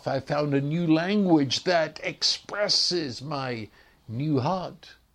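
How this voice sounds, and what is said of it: English accent. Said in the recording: “you listen to my accent and you immediately say that you're English”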